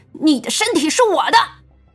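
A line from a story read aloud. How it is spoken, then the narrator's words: Shrieking. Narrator (Chinese): 那男人头尖叫了一声……道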